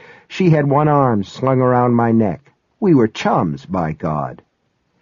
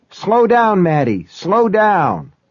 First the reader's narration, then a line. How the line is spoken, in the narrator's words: yelling